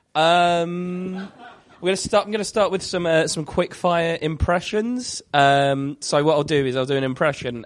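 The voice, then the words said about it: Congested voice from a cold. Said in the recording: “I've got a bit of a cold”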